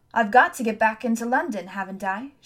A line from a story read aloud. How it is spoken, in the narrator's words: she said